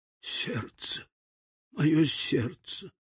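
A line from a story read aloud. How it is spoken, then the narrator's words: Dying whisper. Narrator (Russian): Спина дровосека надломилась, он рухнул, успев только прошептать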